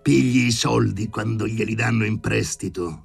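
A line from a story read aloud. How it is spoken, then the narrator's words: Roared. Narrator (Italian): ruggiva Filippo Filippovich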